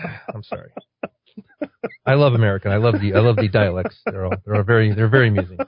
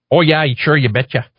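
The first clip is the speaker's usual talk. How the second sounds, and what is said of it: Put-on North Dakota/Minnesota accent. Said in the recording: “you should hear the North Dakota accent ... Between Minnesota and North Dakota ... That is straight up on it. That is so perfect.”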